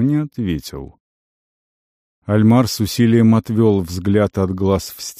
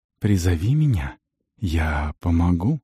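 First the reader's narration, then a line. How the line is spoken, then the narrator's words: Whispered. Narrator (Russian): Шепнул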